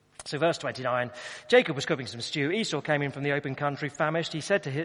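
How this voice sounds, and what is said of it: Usual voice. Nothing is said of it.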